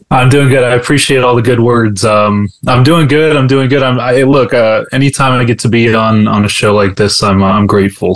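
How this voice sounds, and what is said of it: Smooth radio voice. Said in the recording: “he's got that radio voice.”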